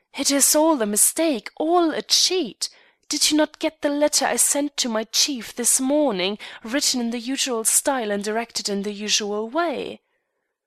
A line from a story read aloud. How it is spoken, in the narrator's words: she cried